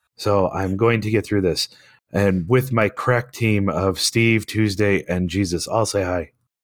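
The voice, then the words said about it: Hoarse, nearly lost voice. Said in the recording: “As you can hear, if you've listened to us before, I have lost my voice”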